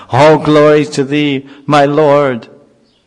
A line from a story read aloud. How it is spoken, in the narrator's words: in great joy Prahlad would shout